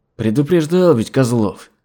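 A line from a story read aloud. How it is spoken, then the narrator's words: Through clenched teeth. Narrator (Russian): процедил Игнат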